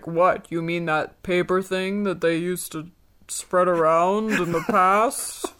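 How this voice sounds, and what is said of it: Imitates another person's voice. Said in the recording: “That's a good impression. ... Trapper impressions.”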